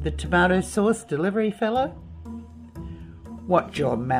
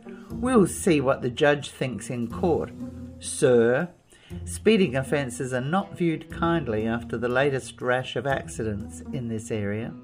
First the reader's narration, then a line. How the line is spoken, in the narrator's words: In a vicious tone, he said